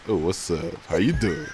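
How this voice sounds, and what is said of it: Put-on podcast host voice. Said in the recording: “let me give you my own podcast voice.”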